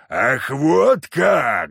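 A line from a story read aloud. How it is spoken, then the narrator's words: Roaring. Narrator (Russian): взревел Леший, приходя в себя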